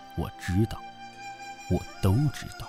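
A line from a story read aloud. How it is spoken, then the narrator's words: Weeping murmur. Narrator (Chinese): 殷丽华拥邓凤而泣，她喃喃说着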